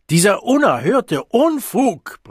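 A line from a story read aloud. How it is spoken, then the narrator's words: Bellowing. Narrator (German): brüllte der Direktor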